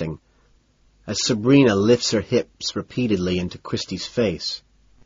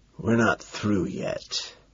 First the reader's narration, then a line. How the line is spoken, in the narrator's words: I explain in a hoarse whisper